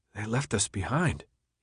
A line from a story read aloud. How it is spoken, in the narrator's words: almost whispered